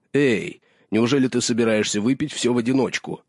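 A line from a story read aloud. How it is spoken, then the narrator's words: Exclaimed. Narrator (Russian): Халдор воскликнул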